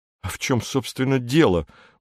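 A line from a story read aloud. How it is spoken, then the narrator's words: Muttering. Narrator (Russian): бормочет он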